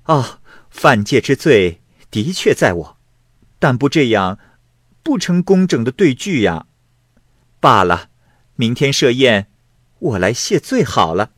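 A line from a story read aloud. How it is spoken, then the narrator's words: Laughing. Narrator (Chinese): 狐女笑曰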